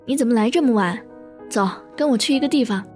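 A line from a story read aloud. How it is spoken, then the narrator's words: Mischievous grinning tone. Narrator (Chinese): 他笑得坏坏说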